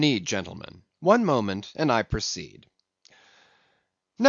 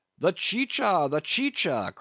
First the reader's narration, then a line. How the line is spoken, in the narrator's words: cried Don Pedro